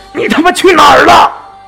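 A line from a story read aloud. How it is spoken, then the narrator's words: Furious yelling over phone. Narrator (Chinese): 货运公司的老板在电话里狂吼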